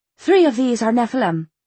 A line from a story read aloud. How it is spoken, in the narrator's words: she said